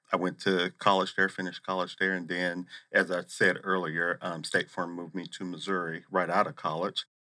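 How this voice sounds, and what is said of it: Noticeable non-Arizona regional accent. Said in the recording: “you clearly are not from Arizona. I'm hearing an accent there.”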